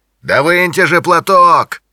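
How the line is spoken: Shout from car. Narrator (Russian): крикнул из машины Джонни

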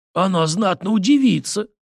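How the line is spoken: Cheerful reply. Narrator (Russian): весело ответил Зимин

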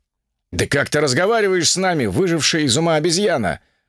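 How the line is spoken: Roaring thunder god. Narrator (Russian): взревел бог грома

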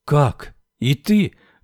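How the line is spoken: Joyful exclamation. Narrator (Russian): радостно воскликнула Анита

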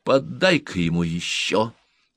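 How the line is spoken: Quiet. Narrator (Russian): негромко сказала она

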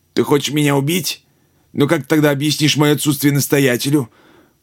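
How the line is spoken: Choked voice, unafraid. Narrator (Russian): Монах говорил задушенным голосом, но в нем не было ни тени испуга

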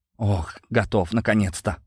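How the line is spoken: Tired exhale. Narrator (Russian): устало выдохнула Дана

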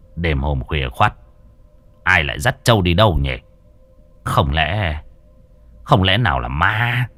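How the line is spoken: Old man muttering. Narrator (Vietnamese): Lão lẩm bẩm

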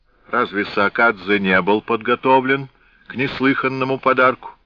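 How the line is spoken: Loud. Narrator (Russian): громко добавил

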